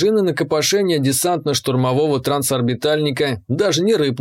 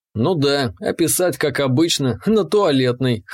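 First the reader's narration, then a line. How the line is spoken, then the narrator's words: Snorting. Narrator (Russian): хмыкнул я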